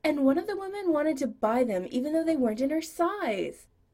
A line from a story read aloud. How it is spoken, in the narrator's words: Brad said, sighing dramatically